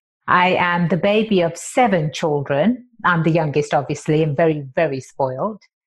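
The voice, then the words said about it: Slight English accent. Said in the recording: “I do have that slight accent, and it is from across the pond. I was born and raised in England.”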